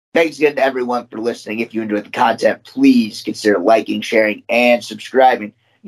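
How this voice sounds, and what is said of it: Deteriorating, worn-out voice. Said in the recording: “You can tell that my voice is finally deciding to deteriorate”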